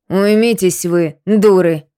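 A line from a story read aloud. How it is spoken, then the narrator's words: Sharp scolding. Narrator (Russian): прикрикнула Недоля на сестер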